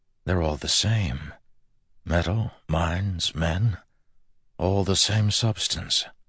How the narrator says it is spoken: An awed voice in the back of his mind whispered

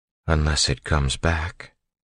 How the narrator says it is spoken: Vin said quietly

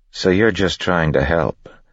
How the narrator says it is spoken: Spook said flatly

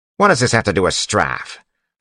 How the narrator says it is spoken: Phylon snapped

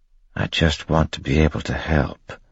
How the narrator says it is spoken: whispered

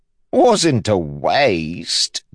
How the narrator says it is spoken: DeChamps said, chuckling

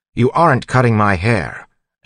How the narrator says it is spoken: Elland said firmly

